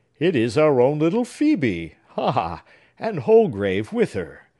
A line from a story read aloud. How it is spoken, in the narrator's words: exclaimed he, with a smile, beautiful, kind, but melancholy